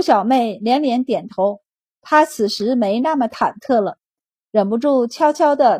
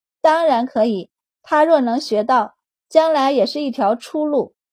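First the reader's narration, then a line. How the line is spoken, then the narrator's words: Slight smile. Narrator (Chinese): 微微一笑，道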